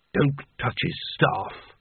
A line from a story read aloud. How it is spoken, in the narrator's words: muttered Carding